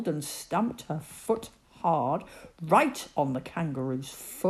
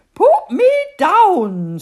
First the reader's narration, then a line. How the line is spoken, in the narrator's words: screamed the queen